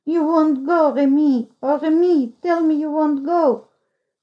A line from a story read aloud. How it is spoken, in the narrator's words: he sobbed